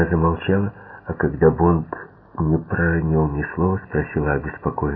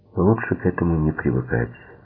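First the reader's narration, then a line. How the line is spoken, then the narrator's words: Tender reply. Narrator (Russian): нежно ответил Бонд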